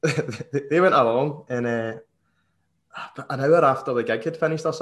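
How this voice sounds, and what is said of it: Usual voice. Nothing is said of it.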